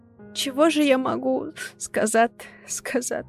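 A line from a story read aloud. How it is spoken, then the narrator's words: Bitter sobbing. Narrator (Russian): Она горько всхлипывала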